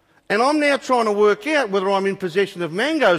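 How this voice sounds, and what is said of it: Usual voice. Nothing is said of it.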